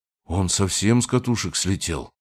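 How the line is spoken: Muttered. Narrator (Russian): пробормотал

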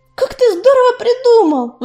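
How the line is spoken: Exclamation. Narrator (Russian): воскликнула Белочка

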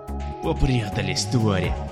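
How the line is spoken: Hissed through teeth. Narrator (Russian): сквозь зубы процедил он

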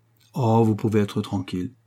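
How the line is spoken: Exclaimed. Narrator (French): s'écria Tom Punch

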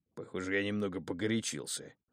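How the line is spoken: Angry giant's grumble. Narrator (Russian): сердито проворчал исполин

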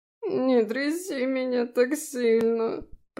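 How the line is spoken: Moaning fairy. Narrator (Russian): простонал фей

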